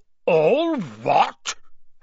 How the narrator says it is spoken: Hagrid thundered

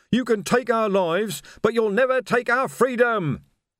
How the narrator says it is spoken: screamed

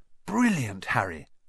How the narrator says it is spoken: whispered Ron

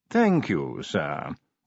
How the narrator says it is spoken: said Willikins smoothly

